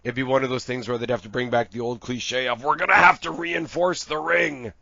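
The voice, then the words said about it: Strained, failing voice. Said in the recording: “I'm losing my voice. It's already gone.”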